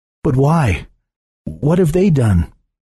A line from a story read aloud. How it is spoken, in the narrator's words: gasped